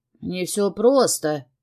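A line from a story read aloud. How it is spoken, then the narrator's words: Scoffing scoundrel. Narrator (Russian): хмыкнул мерзавец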